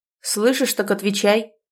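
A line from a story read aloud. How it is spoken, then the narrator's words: Barked shout. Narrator (Russian): гаркнула заловка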